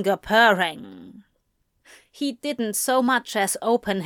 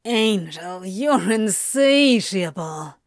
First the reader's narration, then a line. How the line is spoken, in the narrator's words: Crowley groaned